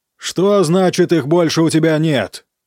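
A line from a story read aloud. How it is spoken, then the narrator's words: Roaring over heavy rain. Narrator (Russian): взревел и романах сквозь стук и хлюпанье тяжелых дождевых капель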